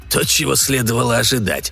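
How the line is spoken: Snorted. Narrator (Russian): фыркнул он

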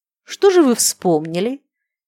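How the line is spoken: Mocking yet kind question. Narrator (Russian): Фирсов спросил насмешливо, но все же по-доброму

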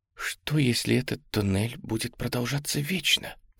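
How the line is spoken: Whisper. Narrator (Russian): прошептала Мэри

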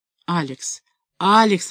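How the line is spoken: Young man mumbling. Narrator (Russian): бормотал юноша

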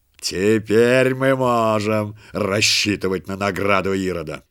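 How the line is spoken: Wild gleeful laughing robber. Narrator (Russian): захохотал с дикой радостью разбойник и добавил

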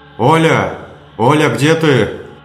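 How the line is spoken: Yelling. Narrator (Russian): Орал

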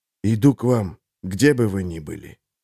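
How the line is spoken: Whispering. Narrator (Russian): Он прошептал

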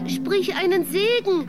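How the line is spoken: Wooden horse calling out. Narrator (German): rief das Holzpferdchen

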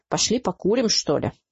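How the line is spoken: Grumbled. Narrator (Russian): буркнул он

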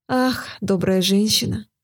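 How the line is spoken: Sighing reply. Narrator (Russian): ответила, вздохнув, королева

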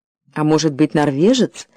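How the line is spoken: Gentle correction. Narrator (Russian): мягко поправил Олег

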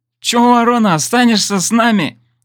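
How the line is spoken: Giggling. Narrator (Russian): хихикнул дрон

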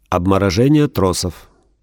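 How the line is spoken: Dry reply. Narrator (Russian): сухо отвечает

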